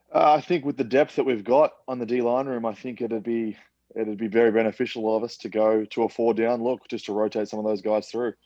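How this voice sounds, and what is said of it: Noticeable foreign accent. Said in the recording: “if you haven't figured it out based on the accent”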